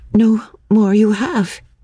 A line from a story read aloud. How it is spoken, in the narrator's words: she stammered